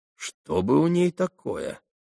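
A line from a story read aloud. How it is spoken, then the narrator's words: Mutter. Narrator (Russian): пробормотал Ракитин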